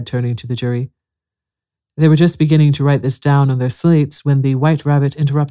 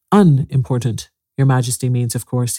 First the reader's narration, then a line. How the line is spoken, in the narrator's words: he said, in a very respectful tone